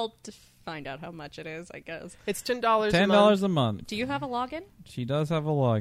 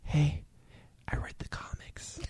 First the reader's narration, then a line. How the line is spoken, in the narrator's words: he whispers or she whispers in my ear